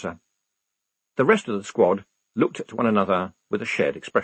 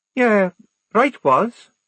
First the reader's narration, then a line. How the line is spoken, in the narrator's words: said Tonka kindly